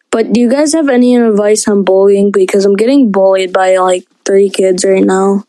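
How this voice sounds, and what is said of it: Young child's voice. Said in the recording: “I know I'm young. I sound young.”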